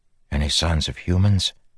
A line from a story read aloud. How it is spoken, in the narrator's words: Kaladin whispered